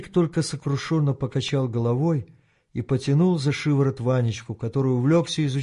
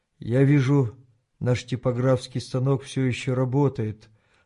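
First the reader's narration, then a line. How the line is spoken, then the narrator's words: Sad remark. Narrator (Russian): грустно заметил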